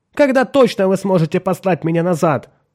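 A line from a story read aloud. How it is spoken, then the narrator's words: Continued yelling. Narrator (Russian): продолжал вопить Меррик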